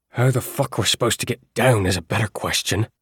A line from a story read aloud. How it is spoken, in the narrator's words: he growled